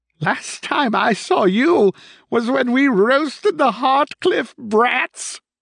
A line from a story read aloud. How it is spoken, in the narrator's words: cackled